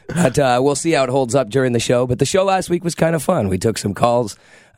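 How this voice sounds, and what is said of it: Congested, sick-sounding voice. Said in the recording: “I've spent all week struggling with the cold. You can hear in my voice”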